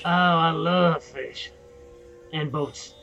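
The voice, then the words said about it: Sarcastic delivery. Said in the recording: “that was sarcastic,”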